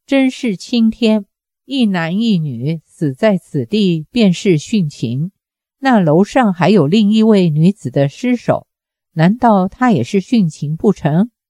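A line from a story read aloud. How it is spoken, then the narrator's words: Sneering. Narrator (Chinese): 冷笑的自然是方多病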